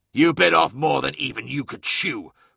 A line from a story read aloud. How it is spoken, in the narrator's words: roared Colophus, the words coming out in the real world as a deafening blurt of eardrum-busting static from the engine's warhorn